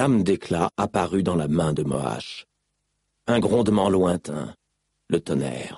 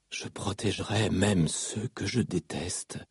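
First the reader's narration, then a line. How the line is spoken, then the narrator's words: Whisper through bloody lips. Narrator (French): chuchota Kaladin à travers ses lèvres ensanglantées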